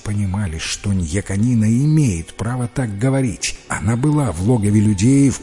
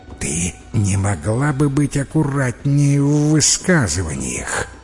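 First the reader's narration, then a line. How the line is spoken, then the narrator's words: Angry hiss. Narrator (Russian): Остроголовка сердито зашипела на охотницу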